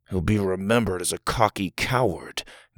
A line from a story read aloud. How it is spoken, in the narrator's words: Doug mumbled